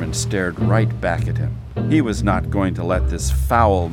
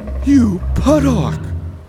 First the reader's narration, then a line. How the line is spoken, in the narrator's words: the cormorant cried